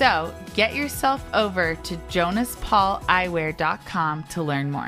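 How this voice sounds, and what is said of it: Usual voice. Nothing is said of it.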